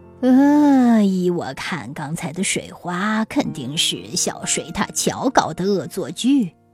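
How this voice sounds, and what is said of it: Low, hoarse old man's voice. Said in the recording (Chinese): “青蛙老爷爷用低沉沙哑的声音说”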